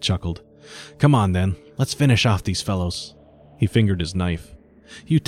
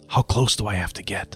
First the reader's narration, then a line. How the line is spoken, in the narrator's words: I whispered to Taro